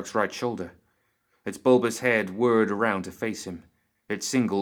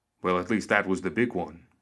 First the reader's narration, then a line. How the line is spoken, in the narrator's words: Joss said